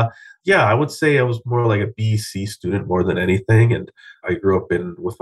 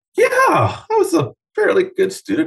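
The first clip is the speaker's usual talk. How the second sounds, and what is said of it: Very high-pitched voice. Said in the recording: “As I say that with a very high voice.”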